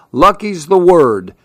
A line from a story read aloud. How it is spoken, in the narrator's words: said Mr